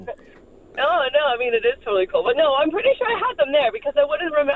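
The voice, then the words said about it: Canadian accent. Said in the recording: “what a cool accent you got ... Oh, I'm from Canada.”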